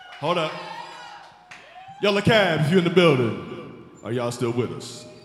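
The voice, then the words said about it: Smooth dad voice. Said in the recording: “That's my smooth dad voice.”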